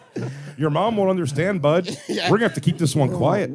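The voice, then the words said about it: Put-on Canadian accent. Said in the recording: “I can't do a Canadian accent”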